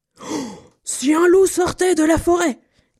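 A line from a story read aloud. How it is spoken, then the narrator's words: Angry shout. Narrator (French): cria-t-il très en colère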